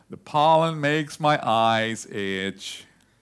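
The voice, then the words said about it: Eeyore impression, gloomy voice. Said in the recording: “I'm trying to do the Eeyore voice.”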